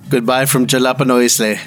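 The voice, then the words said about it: Put-on accent. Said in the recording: “That's a better accent.”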